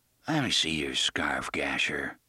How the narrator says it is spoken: he said in a soft, thick voice

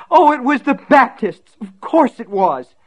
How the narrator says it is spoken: Betsy screamed

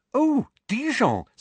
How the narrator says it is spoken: said Hermione excitedly

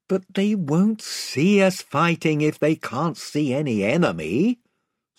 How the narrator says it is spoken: said Eustace miserably

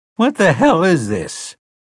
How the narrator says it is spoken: someone called in a cracked, excited voice

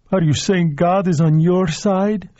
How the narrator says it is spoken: she asked him, her voice so thick the words were almost unintelligible

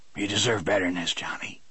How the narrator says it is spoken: he said hoarsely

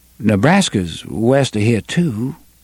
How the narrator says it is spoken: Susanna said hesitantly

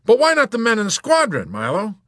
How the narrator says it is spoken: Colonel Cathcart exclaimed

